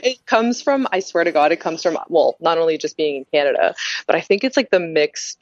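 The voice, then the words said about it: Slight French Canadian accent. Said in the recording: “you have a little bit of an accent. Not too bad, though, but a little tiny bit ... People have said that about the French Canadian side ... I am totally guilty of having an accent”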